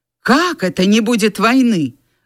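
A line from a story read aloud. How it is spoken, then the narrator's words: Twins' indignant exclamation. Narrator (Russian): возмущенно воскликнули близнецы, словно открыв бессовестный обман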